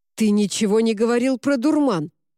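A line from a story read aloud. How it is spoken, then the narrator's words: Barked shout. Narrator (Russian): рявкнул Уорд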